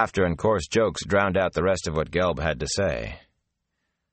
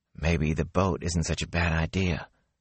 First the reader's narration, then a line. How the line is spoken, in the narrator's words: Matt muttered